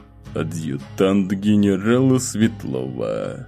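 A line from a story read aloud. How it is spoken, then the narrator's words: Grating through clenched teeth. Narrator (Russian): проскрипел сквозь зубы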